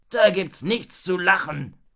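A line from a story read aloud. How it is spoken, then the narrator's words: Growling. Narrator (German): knurrte Raubritter Ralle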